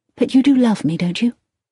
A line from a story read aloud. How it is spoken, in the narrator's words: She said quickly and anxiously